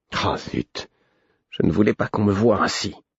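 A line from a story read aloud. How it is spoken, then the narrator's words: Murmuring. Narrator (French): murmura Imbre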